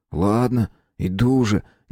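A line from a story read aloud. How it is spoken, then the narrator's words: Reluctant, forced out. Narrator (Russian): нехотя выдавил из себя Витька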